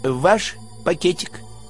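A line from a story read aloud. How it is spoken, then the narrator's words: Soft question. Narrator (Russian): мягко спросил второй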